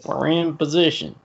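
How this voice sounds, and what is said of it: Put-on Southern US accent. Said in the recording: “How you got a southern accent?”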